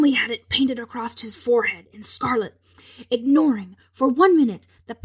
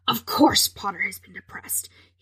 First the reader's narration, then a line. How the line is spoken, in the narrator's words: he snarled